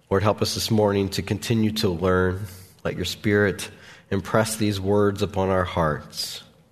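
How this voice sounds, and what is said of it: Voice with a cold. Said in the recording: “I've got a cold”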